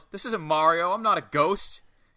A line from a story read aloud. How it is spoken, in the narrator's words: Savoy yells